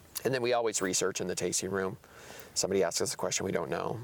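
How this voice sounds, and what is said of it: Voice giving out, hoarse. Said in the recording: “Losing my voice.”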